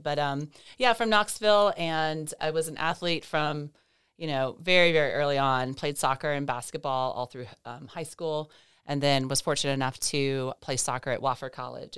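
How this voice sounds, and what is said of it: Voice slightly off, congested. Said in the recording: “i do apologize for my voice i'm a little bit um, allergic to our, our lovely east tennessee hills right now so that's that's what that's what you're getting today”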